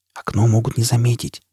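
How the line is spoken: Whispered. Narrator (Russian): прошептала Джиз

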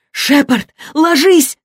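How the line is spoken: Shouting. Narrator (Russian): закричала Кендра

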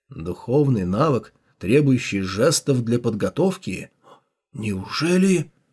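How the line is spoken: Skeptical mutter. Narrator (Russian): пробормотал у Хао

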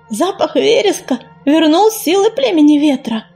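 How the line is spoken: Happy purring. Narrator (Russian): радостно заурчала Листвечка

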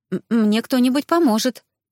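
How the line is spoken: Uncertain. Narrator (Russian): произнесла неуверенно

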